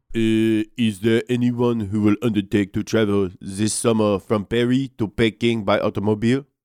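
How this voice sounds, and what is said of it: Put-on French accent. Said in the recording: “give me your best French accent here”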